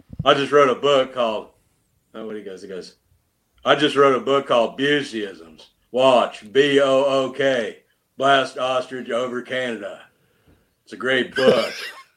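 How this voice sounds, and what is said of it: Imitates another person's voice. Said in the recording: “I like to do Gary Busey.”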